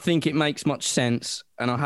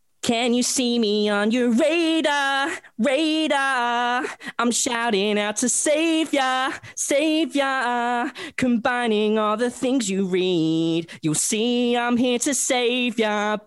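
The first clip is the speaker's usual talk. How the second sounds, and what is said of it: Singing in put-on American accent. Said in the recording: “I haven't got the American voice that I wanted for it ... Love the American ... That was very American. Loved it.”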